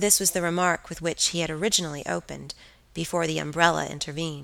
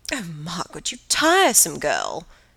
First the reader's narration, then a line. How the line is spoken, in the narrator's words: cried her aunt